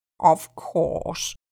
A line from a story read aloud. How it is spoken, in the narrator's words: the Dodo replied, very gravely